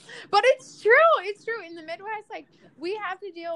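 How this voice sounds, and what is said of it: Usual voice. Nothing is said of it.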